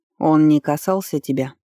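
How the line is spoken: Menacing, statement-like question. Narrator (Russian): спросил Вардер грозно, но прозвучало больше как утверждение

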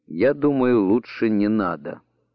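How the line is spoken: Plain. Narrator (Russian): ответил он

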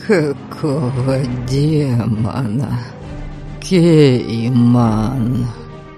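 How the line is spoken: Strained wheeze. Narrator (Russian): С трудом прохрипел Абальд, и на его губах запузырилась кровавая пена

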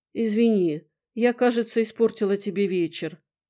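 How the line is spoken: Sigh. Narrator (Russian): вздохнула она

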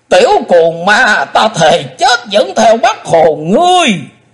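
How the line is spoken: Hateful shout, old man. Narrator (Vietnamese): Đột nhiên lão lùng quát lên giọng căm hận

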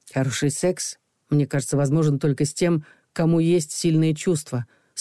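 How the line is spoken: Calm. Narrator (Russian): спокойно произнес Саша

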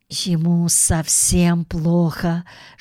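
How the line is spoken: Whisper. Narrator (Russian): шепнула миссис Бёрд

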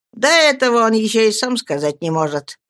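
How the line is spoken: Carefree tone. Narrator (Russian): беспечным тоном проговорил Стирфорд

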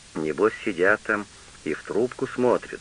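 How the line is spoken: Plain. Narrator (Russian): сказал каменщик Тиде

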